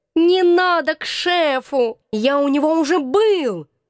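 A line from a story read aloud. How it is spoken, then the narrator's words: Sudden hoarse drawl. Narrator (Russian): Вдруг осипшим голосом протянул кот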